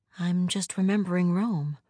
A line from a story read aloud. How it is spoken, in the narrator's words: says a little sadly